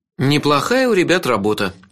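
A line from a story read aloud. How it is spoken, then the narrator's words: Sarcastic snort. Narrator (Russian): ехидно фыркнул я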